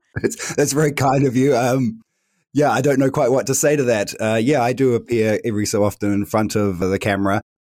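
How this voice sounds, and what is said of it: New Zealand accent. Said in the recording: “I am originally from New Zealand, which you can maybe tell from my accent”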